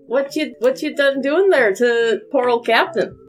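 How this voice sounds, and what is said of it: Inconsistent, wandering put-on accent. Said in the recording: “That went on a hell of a road trip, that accent right there. That was at least 3,000 miles round trip.”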